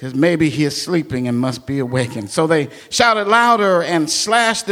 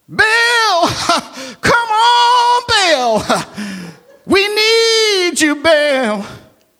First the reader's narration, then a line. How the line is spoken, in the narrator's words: they themselves shouted louder